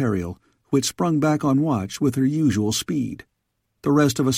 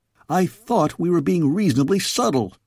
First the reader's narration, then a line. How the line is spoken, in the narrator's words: I yelled